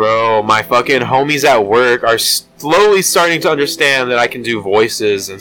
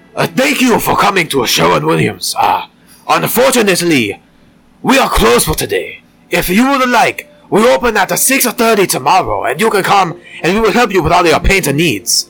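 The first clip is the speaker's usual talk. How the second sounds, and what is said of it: Put-on Asian accent. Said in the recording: “in an Asian accent”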